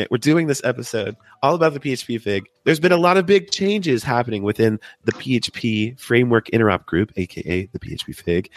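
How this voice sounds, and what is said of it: Deep, sick-sounding voice. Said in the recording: “my best deep sick voice, because I've been working on this deep voice for the past week of sickness... my voice is not quite recovered... the sick voice”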